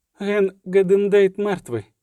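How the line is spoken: Breaking voice. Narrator (Ukrainian): сказала ламким голосом

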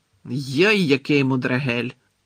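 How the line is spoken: Growled. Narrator (Ukrainian): прогарчав Гегрід

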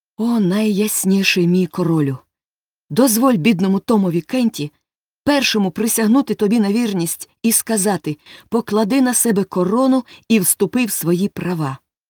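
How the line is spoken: Joyful exclamation. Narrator (Ukrainian): Том радісно вигукнув

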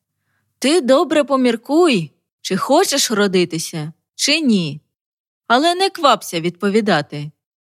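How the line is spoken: Father speaking loudly. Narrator (Ukrainian): батько наче по телефону голосно промовляє

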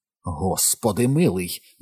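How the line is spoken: Almost growling. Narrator (Ukrainian): ледь не гарчала

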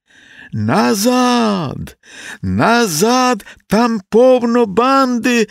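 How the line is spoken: Shouted while running. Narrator (Ukrainian): закричав Василинка, добігаючи до брички

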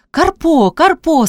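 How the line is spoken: Cried out. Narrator (Ukrainian): скрикнула Пріська

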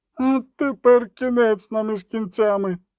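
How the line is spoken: Groaning ferryman. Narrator (Ukrainian): застогнав перевізник

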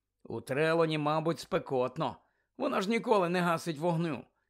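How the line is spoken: Sighed. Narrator (Ukrainian): зітхнув Рон

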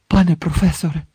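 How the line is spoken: Tense question. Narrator (Ukrainian): напруженим голосом запитав Гаррі

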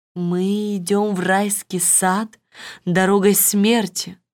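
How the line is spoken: Plain. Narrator (Russian): сказал принц

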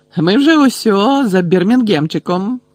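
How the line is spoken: Joyful. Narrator (Ukrainian): радісно повідомив Стен

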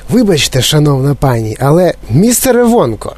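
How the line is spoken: Exclaiming. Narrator (Ukrainian): вигукнула пані Солт

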